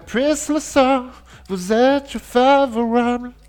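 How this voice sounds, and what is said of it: Sung with a fake English accent. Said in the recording (French): “je vais la chanter avec un accent anglais”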